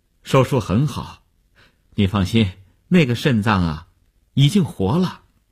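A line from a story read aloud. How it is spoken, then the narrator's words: Relieved, smiling. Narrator (Chinese): 医生放心的笑笑说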